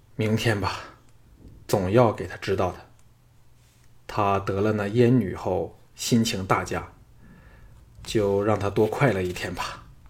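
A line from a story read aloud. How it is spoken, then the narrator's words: Sighing. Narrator (Chinese): 唐毅叹了一口气道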